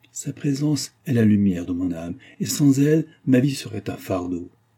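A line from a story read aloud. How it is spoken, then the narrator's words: Enthusiastic exclamation. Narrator (French): Il s'écrierait avec un élan d'enthousiasme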